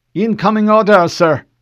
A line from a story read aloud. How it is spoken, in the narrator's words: Lieutenant Dominique called out